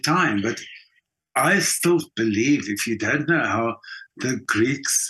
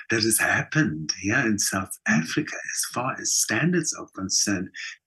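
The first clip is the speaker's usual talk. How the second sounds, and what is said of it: Almost hushed voice. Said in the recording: “I'm now saying this in almost in a hushed voice”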